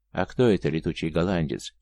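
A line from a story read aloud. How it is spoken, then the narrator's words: Quiet question. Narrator (Russian): тихо спросил Иван у казака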